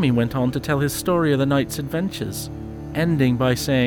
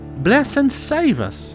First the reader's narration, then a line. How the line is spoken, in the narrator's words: exclaimed his mother, and for some minutes she was so astonished